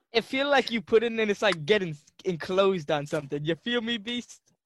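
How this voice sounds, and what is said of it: Unusual, hard-to-place accent. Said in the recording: “that accent... Yeah, whatever that was.”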